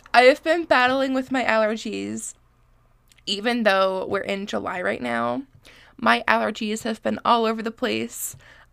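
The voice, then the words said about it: Congested, sniffly voice. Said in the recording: “apologize for my voice... I am very congested. I'm very sniffly, and I'm so sorry for the quality of my voice. I promise you that I don't always sound like this”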